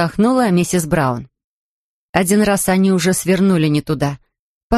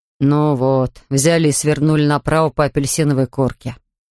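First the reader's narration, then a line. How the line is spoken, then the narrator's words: Grumbling. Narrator (Russian): ворчал мистер Браун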